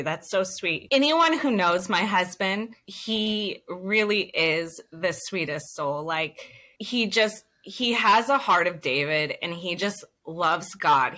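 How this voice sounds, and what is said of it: Teary, emotional voice. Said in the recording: “I'm a little teary.”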